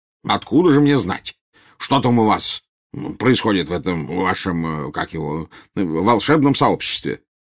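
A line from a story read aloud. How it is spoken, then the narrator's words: Snapping retort. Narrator (Russian): огрызнулся премьер-министр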